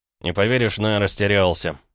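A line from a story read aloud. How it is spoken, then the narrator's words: Snorting. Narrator (Russian): Игоранин хмыкнул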